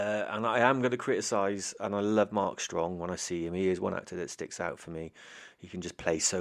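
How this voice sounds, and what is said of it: Usual voice. Nothing is said of it.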